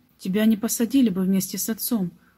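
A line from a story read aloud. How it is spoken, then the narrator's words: Plain. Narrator (Russian): ответил он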